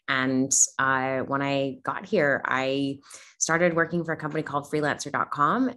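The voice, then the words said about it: Canadian accent, not Australian. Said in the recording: “You may notice that I don't sound Australian. I'm originally from Canada.”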